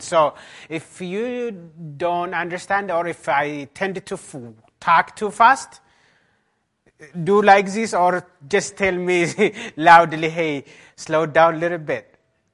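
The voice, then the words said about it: Strong Ethiopian accent. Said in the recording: “Beautiful and a strong accent. ... Yeah, it's beautiful and a strong accent.”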